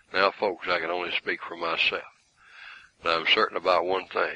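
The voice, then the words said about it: Put-on Southern drawl. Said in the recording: “I'll give you a little southern drawl I was raised with. I've kind of changed it over the years by living so far apart from the south, but I can still do it.”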